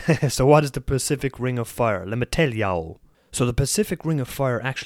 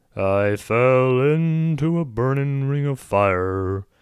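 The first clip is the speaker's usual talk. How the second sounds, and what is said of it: Sung imitation of another person's voice. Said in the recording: “my best Johnny Cash impression, and it's not very good”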